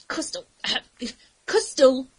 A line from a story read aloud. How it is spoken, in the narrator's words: managed to gasp